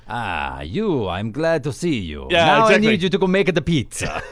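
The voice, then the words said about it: Cheesy put-on Italian accent. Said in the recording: “a really, like, cheesy Italian accent... Italian accent... not quite that... But it's like that.”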